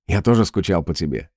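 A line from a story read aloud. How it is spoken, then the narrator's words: Sighing. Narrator (Russian): вздохнул Бенни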